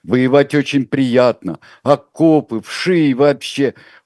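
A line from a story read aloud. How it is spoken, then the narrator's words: Sobbing with laughter. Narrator (Russian): Он всхлипнул, но скорее от смеха, чем от слез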